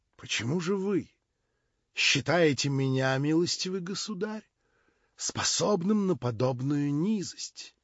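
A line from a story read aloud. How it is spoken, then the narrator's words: Solemn declaration. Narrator (Russian): торжественно произнес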